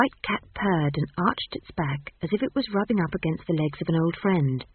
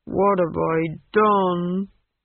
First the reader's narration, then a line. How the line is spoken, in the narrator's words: he moaned